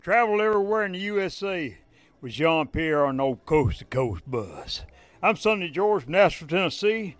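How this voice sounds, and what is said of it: Deep rural Tennessee accent. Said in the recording (French): “il a vraiment un accent qui vient du fin fond du Tennessee”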